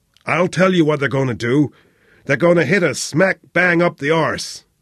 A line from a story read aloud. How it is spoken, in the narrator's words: Flynn roared